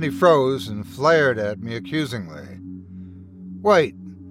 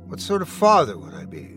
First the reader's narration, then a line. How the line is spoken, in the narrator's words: Luke mumbled